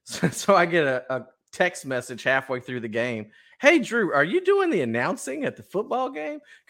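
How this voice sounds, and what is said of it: Texan twang. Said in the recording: “You do have that certain twang about you. ... It's definitely very Conroe.”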